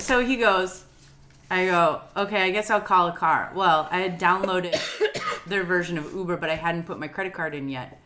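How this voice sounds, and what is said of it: Rough, gravelly, hoarse sick voice. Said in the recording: “I have the virus for walking pneumonia right now ... that's why I sound like an old, grizzled, smoking man.”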